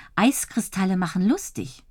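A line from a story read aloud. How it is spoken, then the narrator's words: Plain. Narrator (German): sagt Dotti immer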